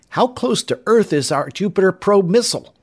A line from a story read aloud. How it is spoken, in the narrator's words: Bub Barclay asked Tom excitedly